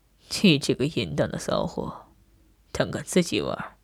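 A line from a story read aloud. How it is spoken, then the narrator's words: Cold. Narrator (Chinese): 他冷冷道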